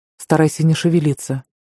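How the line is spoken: Calm advising. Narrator (Russian): посоветовал Кевин спокойным голосом

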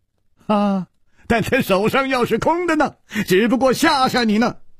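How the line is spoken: Sudden laugh. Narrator (Chinese): 楚留香忽然笑了

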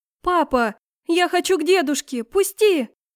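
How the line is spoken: Small child shouting. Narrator (Russian): кричала маленькая

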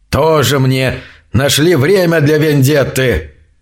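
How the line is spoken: Fierce grumble. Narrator (Russian): Немного успокоившись, свирепо проворчал он

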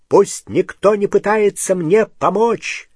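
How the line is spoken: Loud. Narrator (Russian): громко сказал Гарри

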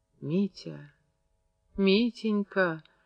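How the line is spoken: Small whimpering voice. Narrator (Russian): прохныкал в кустах голосишка Зинки Никулиной

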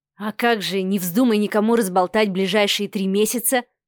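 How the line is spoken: Smirking snort. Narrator (Russian): хмыкнул Адмиралов

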